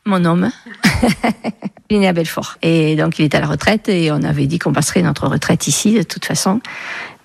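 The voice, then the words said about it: Southwestern French regional accent. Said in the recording (French): “Un nouveau petit accent à découvrir ... Il vient d'où ce petit accent ... Du sud-ouest, sud-Gironde, enfin plutôt Lot-et-Garonne”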